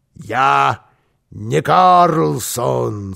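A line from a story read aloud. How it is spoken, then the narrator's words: Muffled, hollow voice. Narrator (Russian): сказал Карлсон глухим голосом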